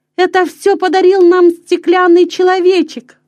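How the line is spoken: Exclaiming. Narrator (Russian): воскликнул Петер

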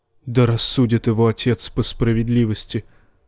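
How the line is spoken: Mumbling. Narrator (Russian): пробормотал странствующий Септон

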